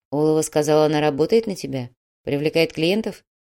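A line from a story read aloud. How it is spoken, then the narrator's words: Quiet measured speech. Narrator (Russian): Грязнов говорил негромко, размеренно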